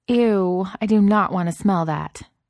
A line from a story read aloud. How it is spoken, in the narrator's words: Taylor said firmly